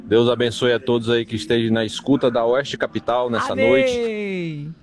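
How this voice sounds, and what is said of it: Different regional accent. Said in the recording (Portuguese): “Tem um sotaque diferente, não tem, gente? Vamos descobrir se é daqui ou é de fora.”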